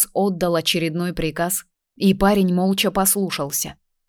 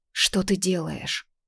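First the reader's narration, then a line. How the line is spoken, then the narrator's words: Whisper. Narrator (Russian): прошептала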